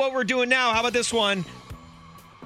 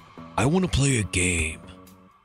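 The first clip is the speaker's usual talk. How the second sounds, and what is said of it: Imitates the Saw villain's voice. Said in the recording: “I even did the voice there ... Saw”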